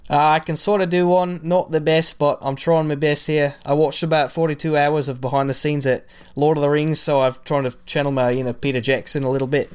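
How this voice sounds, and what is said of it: Attempted New Zealand accent. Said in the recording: “Can you do a New Zealand accent? ... Solid 62%.”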